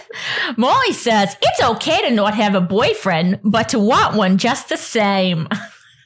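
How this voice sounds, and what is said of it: Brooklyn accent. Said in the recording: “you got to do it in a Brooklyn accent ... you're good at that”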